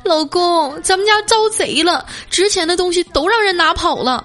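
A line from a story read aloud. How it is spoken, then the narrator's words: Tearful wife. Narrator (Chinese): 他媳妇儿带着哭腔说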